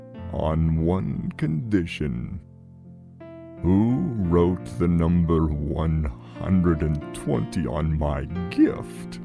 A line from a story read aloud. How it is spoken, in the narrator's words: John grinned and said slowly